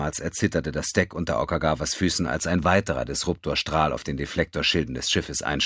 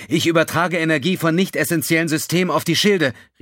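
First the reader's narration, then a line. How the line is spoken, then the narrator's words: Called out. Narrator (German): rief sie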